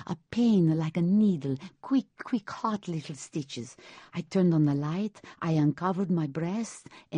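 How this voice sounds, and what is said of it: Sicilian accent. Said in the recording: “she calls that a Sicilian accent?”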